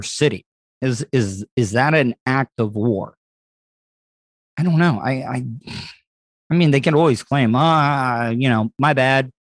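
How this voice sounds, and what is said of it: Tired, strained, fading voice. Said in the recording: “my voice is the way that it is today ... I'm going through that fatigue ... my voice is going”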